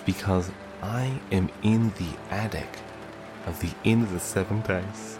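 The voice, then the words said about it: Quiet, hushed speaking voice. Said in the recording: “I'm talking so quiet”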